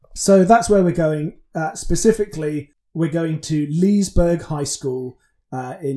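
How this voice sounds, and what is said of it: Usual voice. Nothing is said of it.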